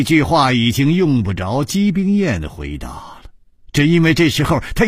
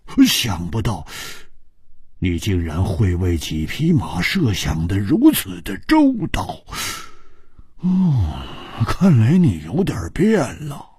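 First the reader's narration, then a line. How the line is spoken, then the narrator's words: Sighing after long silence. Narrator (Chinese): 胡铁花默然了半晌，叹了一口气说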